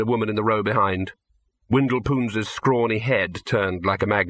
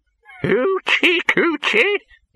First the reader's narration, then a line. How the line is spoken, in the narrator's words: he cackled